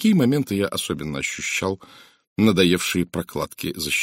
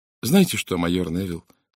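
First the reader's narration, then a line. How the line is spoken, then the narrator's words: Plain. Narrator (Russian): сказала она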